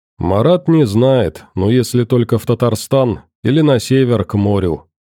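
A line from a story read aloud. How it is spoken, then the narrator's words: Plain. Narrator (Russian): ответил один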